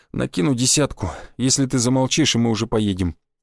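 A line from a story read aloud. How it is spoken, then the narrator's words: Quiet. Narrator (Russian): тихо произнес я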